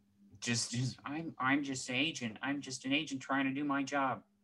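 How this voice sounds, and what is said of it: Imitates another person's voice. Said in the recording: “good Jodie Foster impression? ... I was feeling more of like the Holly Hunter vibe with that. That sounded like Mr. Incredible's wife.”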